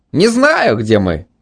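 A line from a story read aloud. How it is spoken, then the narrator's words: Cheerful. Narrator (Russian): весело заявил Митя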